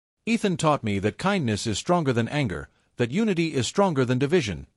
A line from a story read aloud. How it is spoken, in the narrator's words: said, his voice steady